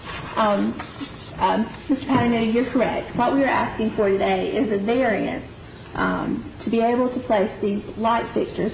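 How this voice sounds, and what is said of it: Scratchy voice, like a cold. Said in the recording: “my voice is a little bit scratchy. I might be getting a cold”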